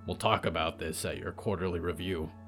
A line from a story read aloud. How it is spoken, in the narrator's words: he muttered